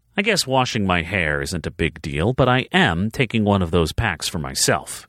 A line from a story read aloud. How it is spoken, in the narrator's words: she said firmly